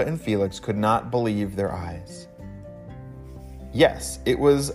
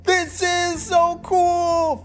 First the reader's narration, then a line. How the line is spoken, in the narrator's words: Felix shouted